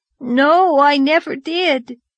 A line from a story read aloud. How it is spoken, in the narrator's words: whimpered Davy